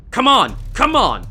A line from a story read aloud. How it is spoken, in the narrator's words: Instructor Hong shouted